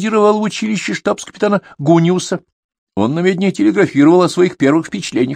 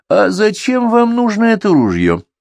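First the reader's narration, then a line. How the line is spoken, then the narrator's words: Hmphing. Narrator (Russian): хмыкнул Николай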